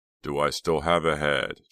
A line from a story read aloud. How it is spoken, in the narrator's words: Chuck groaned